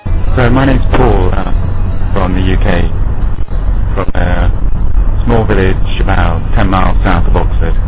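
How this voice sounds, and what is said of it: British accent. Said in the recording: “He is from the United Kingdom, and like I said before, has that dreamy accent”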